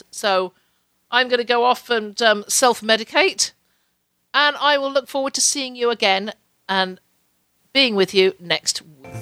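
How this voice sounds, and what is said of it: Hoarse, strained voice from cold. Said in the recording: “my voice is just about running out on me ... I ended up with yet another head cold”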